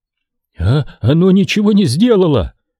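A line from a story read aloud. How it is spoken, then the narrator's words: Exclaimed over comms. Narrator (Russian): воскликнул Морот по воксу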